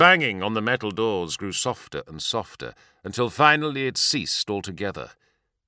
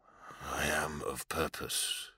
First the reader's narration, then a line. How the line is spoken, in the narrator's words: Garrow mumbled